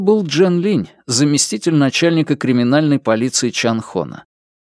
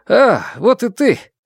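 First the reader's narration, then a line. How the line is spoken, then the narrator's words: Exclamation. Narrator (Russian): кто-то прервал молчание, воскликнув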